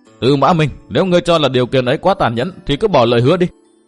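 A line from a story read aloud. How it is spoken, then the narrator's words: Young woman laughing loudly. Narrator (Vietnamese): Thiếu nữ cười lớn nói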